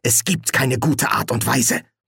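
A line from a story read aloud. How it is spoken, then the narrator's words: Angry hiss. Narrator (German): fauchte Martha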